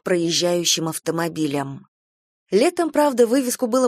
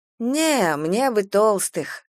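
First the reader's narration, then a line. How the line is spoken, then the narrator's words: Sighing. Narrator (Russian): Галя вздохнула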